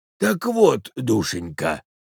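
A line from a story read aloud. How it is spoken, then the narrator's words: Hoarse, mournful singsong. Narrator (Russian): хрипел он на самый плачевный напев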